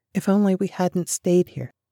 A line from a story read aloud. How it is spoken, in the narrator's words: But Shelley whispered